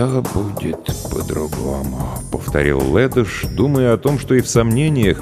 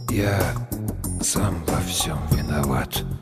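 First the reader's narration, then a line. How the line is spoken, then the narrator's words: Barely audible. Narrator (Russian): Ледош сказал едва слышно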